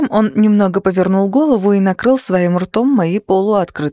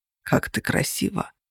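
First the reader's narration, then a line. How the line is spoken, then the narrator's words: Tender whisper. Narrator (Russian): прошептал Тейт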